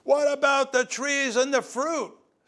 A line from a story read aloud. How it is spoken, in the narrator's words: Someone shouted